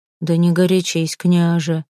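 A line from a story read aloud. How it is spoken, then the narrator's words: Calm. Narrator (Russian): спокойно ответил Ульф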